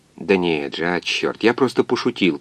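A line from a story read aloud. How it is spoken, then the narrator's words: Muttering. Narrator (Russian): пробормотал доктор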